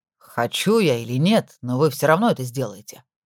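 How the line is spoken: Grumbling woman. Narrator (Russian): пробурчала женщина

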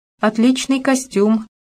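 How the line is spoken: Forced-out words. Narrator (Russian): выдавила-таки я

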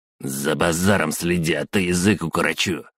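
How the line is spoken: Rough reply. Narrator (Russian): грубо ответил Саня

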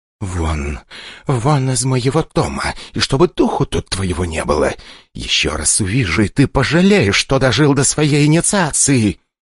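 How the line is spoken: Hiss through teeth after pause. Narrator (Russian): после неловкой паузы она сквозь зубы прошипела

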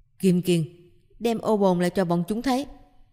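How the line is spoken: Raised voice. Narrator (Vietnamese): Triển Chiêu cao giọng nói

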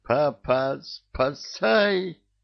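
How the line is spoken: Wheezed hoarsely. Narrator (Russian): просипела левая

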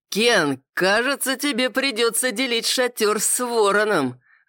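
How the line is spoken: Loud shout. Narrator (Russian): громко выкрикнул один из друзей его высочества

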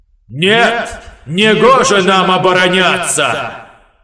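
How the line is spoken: Near shout. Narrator (Russian): Почти выкрикнул магистр

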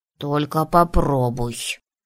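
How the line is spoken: Sleepy mumble. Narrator (Russian): сонно пробурчал Коша

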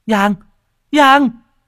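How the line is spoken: Hurried calling out. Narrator (Vietnamese): vội vã, miệng kêu lên

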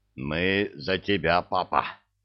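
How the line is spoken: Wheezing. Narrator (Russian): просипел балбес

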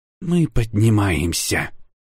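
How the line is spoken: Irritated, curt. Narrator (Russian): раздраженно бросила Урсула

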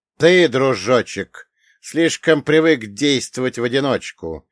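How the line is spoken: Cold curt retort. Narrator (Russian): холодно отрезал Люцифер

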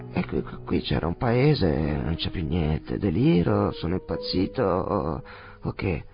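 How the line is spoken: Stammered. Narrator (Italian): balbettò l'assassino

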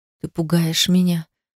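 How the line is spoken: Aroused moan. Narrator (Russian): застонала, почувствовав его твердость

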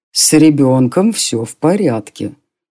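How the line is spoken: Dry dragon report. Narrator (Russian): также сухо доложил дракон

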